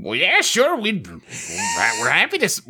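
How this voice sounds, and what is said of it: Old-timey prospector character voice. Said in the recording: “I can't find this voice at all... I didn't know your dad was an old-timey prospector... write in his character voice... I'm afraid to stop doing the voice”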